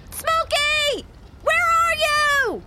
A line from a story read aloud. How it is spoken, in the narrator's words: she also yells